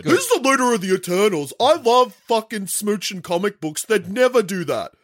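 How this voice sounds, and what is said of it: Imitates another person's voice. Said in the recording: “I'm doing a Hayden impression.”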